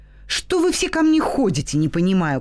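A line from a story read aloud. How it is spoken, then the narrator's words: Angry shout. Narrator (Russian): кричу я сердито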